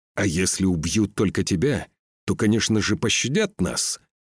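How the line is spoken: Growling. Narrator (Russian): прорычал Скаль

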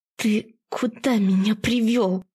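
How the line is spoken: Hissing through teeth. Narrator (Russian): Сижу сквозь зубы или шиплю

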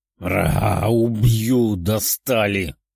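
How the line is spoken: Growling, shouting, pinned down. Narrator (Russian): рычала и кричала Даша, прижатая металлической сетью к земле

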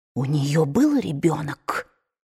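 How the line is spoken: Whispered in ear. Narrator (Russian): прошептала Скарлетт на ухо Кэтлин

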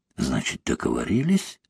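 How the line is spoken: Close whisper. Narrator (Russian): зашептал ему в лицо Лавр

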